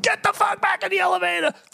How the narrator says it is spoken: I scream at them

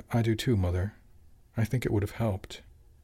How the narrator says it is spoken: Otto smiled and murmured

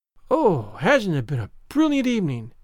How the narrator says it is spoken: sighed Anne

